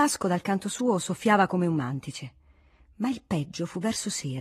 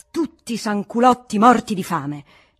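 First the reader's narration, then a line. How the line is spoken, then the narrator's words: Shouting monk. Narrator (Italian): gridava il monaco al marchese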